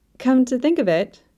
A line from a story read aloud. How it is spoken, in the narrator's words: Uriel said brightly